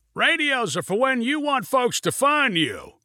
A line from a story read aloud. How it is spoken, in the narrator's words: shouted Junie Evans above the wind and engine noise